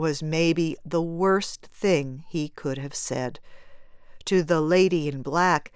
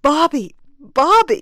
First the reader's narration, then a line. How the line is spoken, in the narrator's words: she cried out in a release of unreasoning sadness